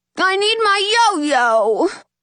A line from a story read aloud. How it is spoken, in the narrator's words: Jax yells